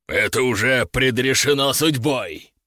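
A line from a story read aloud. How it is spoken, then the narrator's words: Growling dragon. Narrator (Russian): прорычал дракон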